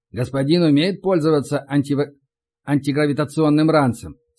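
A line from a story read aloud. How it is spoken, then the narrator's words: Plain question. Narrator (Russian): спросил водитель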